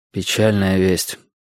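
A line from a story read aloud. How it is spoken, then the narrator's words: Sighing. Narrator (Russian): вздохнул я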